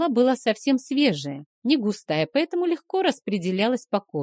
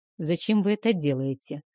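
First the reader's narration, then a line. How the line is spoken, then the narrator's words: Muffled, hollow question. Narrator (Russian): глухо спросил дракомаг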